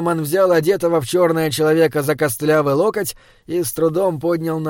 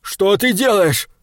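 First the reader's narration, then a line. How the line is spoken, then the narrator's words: Screaming. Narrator (Russian): завопил он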